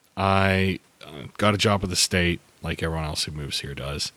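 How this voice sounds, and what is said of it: Pittsburgh accent. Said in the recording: “I love your accent ... I am originally from Pittsburgh”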